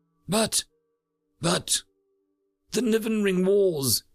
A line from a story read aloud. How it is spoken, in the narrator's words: he gasped